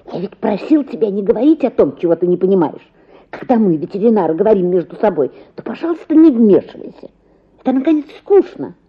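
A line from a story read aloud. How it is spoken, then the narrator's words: Angry hiss. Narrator (Russian): шипел сердито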